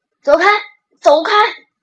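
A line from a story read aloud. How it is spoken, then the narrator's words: Loud bellowing. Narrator (Chinese): 汽笛大吼大嚷着说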